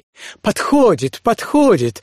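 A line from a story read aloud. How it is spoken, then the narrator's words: Two joyful exclamations. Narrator (Russian): радостно восклицают обе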